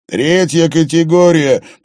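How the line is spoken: Shouted. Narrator (Russian): прокричал Харри

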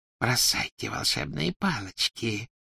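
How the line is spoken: Whispered. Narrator (Russian): прошептала она

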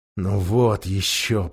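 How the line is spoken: Muttering to himself. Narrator (Russian): пробормотал Эдмунд про себя

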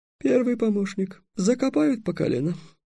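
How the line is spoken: Barely audible mutter. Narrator (Russian): едва слышно пробормотал Васап

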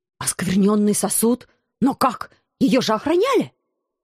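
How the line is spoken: Despairing mutter. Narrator (Russian): пробормотал главный жрец, только что осознав, что все его планы рухнули в тартарары

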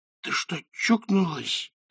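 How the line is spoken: Hissing. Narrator (Russian): прошипел он

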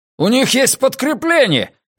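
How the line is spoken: Man shouting. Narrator (Russian): крикнул один из мужчин

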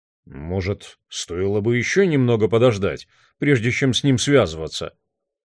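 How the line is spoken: Grumbled. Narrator (Russian): проворчал он

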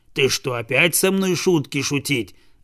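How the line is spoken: Dog's growl. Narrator (Russian): зарычал пес

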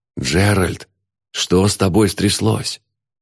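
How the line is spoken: Whispering. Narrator (Russian): зашептал

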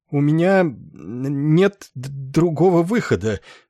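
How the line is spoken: Stammering wry admission. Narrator (Russian): с кривой улыбкой признался, запинаясь Нетли

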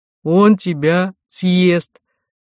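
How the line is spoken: Announcing, then guffawing. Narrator (Russian): сообщил священнослужитель и захохотал

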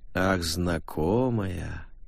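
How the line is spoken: Sentimental drawl. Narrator (Russian): протянула Валькирия таким тоном, что Клара невольно заподозрила ее в скрытой сентиментальности

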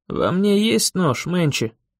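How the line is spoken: Hoarse croak. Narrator (Russian): прохрипел я

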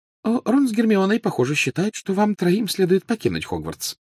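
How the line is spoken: Light, casual. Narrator (Russian): начала она легким и непринужденным тоном

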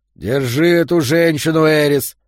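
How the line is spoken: Growled. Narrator (Russian): прорычал Йо

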